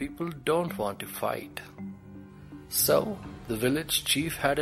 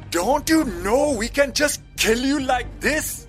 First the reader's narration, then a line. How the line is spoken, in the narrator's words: one man shouted